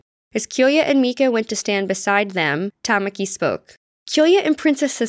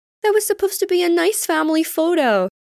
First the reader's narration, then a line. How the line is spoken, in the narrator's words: Tamaki whined